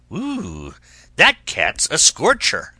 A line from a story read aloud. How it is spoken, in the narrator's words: this dog might have growled